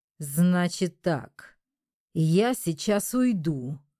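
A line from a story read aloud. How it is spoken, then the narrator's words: Through clenched teeth. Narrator (Russian): процедила я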